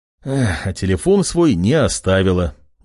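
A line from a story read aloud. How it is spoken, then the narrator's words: Young man's sigh. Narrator (Russian): вздохнул парень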